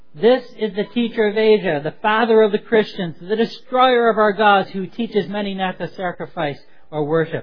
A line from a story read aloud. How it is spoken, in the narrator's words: the crowd shouted out